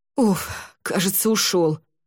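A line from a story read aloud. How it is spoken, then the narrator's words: Relieved exhale. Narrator (Russian): облегченно выдохнул тот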